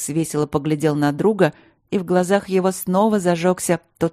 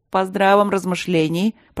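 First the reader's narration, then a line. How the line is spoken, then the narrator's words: Grumbling. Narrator (Russian): пробурчал барон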